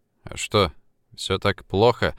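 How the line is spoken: Dejected question. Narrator (Russian): уныло спросил Влад

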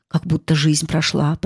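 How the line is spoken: Muttering. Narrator (Russian): пробормотал Факригет

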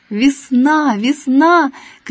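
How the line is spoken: Shouting, cawing like a rook. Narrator (Russian): кричал он, каркал по-грачинному

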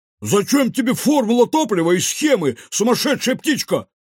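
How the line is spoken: Shouted. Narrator (Russian): выкрикнул Кефир

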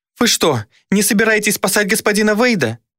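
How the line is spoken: Witch exclaiming. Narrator (Russian): воскликнула ведьма

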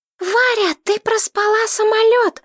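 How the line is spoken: Shouting. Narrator (Russian): закричала

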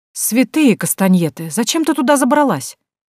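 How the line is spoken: Exclaiming. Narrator (Russian): воскликнула Карла

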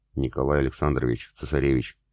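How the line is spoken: Quiet informing. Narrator (Russian): негромко сообщил

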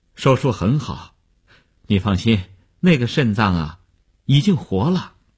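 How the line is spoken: Relieved, smiling. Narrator (Chinese): 医生放心地笑笑说

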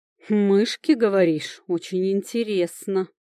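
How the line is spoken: Amused smirk. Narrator (Russian): хмыкнул Леонор

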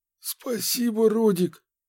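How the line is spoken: Wheezing. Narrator (Russian): сипел он

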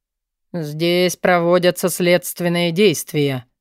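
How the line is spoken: Through gritted teeth. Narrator (Russian): процедил Форси

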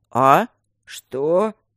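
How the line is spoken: Sleepy mumble. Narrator (Russian): сонно пробормотал второй заговорщик

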